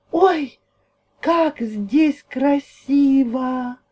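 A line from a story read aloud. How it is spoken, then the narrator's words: Exclaimed. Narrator (Russian): воскликнула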